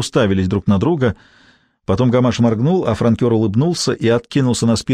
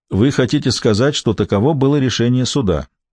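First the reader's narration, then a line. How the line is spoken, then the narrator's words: Level, even voice. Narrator (Russian): ровным голосом сказал Гамаш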